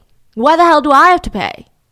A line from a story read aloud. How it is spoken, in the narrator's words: Steve was heard by the whole family loudly complaining